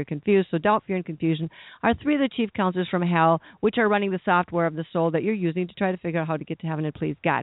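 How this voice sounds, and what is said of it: Very fast speech. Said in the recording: “Did I say that fast enough? ... I know that's fast.”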